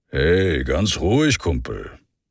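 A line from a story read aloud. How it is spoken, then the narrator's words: Deep, gruff, carefree voice. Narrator (German): Seine Stimme war tief und brummig und klang gänzlich unbeschwert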